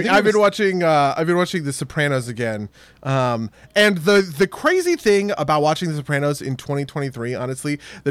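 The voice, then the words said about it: New Jersey accent. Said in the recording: “I felt like my New Jersey accent has been coming back really hard recently ... does anybody feel like ... New Jersey accent is getting worse?”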